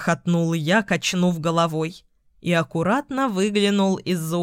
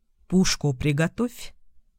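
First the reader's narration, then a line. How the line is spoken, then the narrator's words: Whisper. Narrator (Russian): шепнул я Марусе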